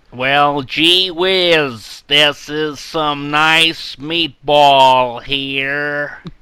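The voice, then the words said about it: Put-on American accent drifting to Bronx. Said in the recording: “your best American accent? ... It started off as, like, an American tourist with, like, a camera around their neck, and it turned into, like, someone from the Bronx.”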